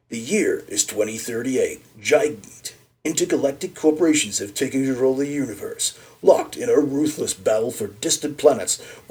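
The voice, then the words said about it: Movie trailer narrator voice. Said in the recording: “in my best trailer voice”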